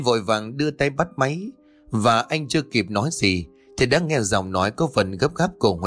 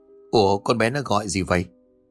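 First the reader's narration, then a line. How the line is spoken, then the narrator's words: Muttered. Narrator (Vietnamese): Kiên lẩm bẩm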